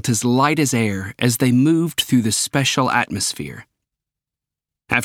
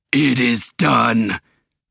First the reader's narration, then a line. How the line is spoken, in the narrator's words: he roared